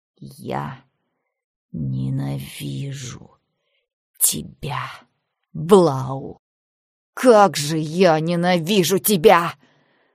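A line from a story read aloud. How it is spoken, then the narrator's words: Drawn-out moan through teeth. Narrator (Russian): Марша протяжно простонала сквозь зубы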